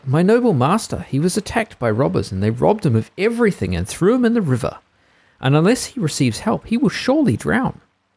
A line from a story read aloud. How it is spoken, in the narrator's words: cried the cat